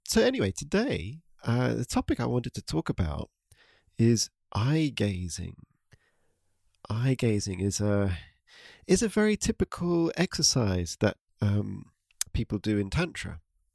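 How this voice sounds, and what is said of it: Congested, slightly stuffy voice. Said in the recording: “I'm a little bit bunged up today, a bit of congestion, so my voice may sound a bit stuffy, but hopefully it's not too noticeable.”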